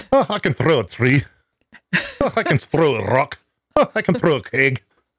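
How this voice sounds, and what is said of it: Bad put-on Scottish accent. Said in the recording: “the worst Scottish accent you ever heard”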